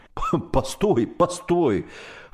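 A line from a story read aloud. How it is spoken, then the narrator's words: Pleading. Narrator (Russian): взмолился пароходный человек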